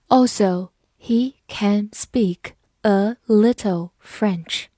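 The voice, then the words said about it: Slow, deliberate reading. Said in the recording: “我们慢读一遍”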